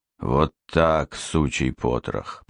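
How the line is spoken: Through gritted teeth. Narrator (Russian): процедил Рыжий

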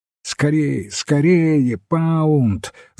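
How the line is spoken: Breathless shouting. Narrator (Russian): запыхавшись, кричал он

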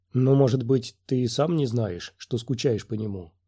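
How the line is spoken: Plain. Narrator (Russian): сказала Талла

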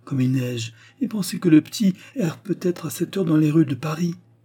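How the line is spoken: Sighing. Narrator (French): soupire-t-elle

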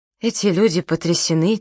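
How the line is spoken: Quiet. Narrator (Russian): тихо сказала

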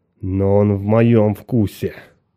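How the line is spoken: Muttering. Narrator (Russian): Айрин бормоча

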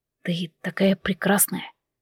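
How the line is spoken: Whispered. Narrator (Russian): шепотом произнес он

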